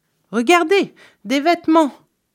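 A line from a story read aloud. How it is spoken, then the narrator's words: Exclaiming. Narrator (French): s'écria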